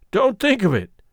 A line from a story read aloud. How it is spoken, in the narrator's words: said Coltrane cheerfully